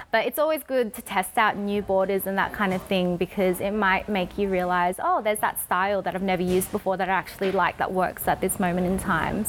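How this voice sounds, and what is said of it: Australian accent, fast speech. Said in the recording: “my Australian accent... you talk very fast”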